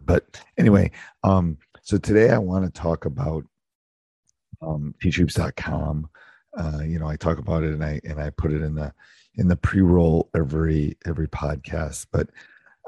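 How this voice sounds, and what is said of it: Worn, deeper than usual voice. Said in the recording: “apologize for my voice. You can definitely tell it is the end of the season ... my deeper voice has already gotten deeper”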